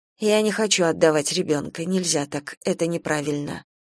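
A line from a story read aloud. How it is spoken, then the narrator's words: Monotone mutter. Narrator (Russian): Соня говорила монотонно и, наконец, пробормотала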